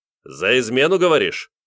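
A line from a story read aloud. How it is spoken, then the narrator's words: Stern question. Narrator (Russian): глянул строго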